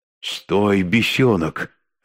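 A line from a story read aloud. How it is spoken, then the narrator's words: Hissing. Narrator (Russian): зашипел ректор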